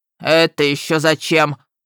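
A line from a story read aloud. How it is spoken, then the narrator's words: Growled. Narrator (Russian): прорычал разрыватель трупов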